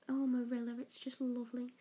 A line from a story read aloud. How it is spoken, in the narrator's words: said Anne